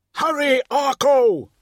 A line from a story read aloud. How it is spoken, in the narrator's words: he shouted